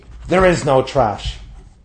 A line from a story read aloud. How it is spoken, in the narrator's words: he thundered back at me